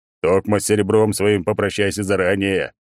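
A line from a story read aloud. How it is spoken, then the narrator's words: Loud guffaw. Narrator (Russian): Он громко заржал, заражая показным весельем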